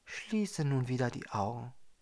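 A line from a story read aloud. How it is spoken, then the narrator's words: Woman whispering. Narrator (German): flüsterte die Frau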